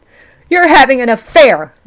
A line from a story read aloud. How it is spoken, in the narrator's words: Lisa snarled at him